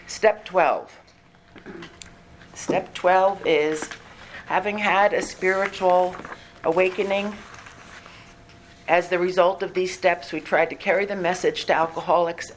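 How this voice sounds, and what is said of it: Hoarse voice. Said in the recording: “Excuse my hoarseness. I am getting over a cold”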